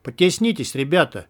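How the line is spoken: Cheerful vandal. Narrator (Russian): весело проговорил вандал

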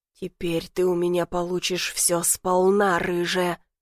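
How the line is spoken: Hissing. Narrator (Russian): прошипел

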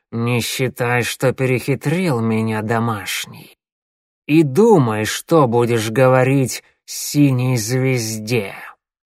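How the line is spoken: Hiss in ear. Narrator (Russian): Глашатай прошипел прямо в ухо

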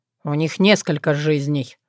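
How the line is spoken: Tired. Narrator (Russian): устало сказал Рагна Стиг

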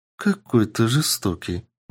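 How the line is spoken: Quiet girlish giggle. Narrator (Russian): Девушка тихо хихикнула

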